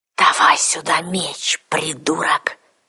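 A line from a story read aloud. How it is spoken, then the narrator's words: Hiss. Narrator (Russian): прошипел советник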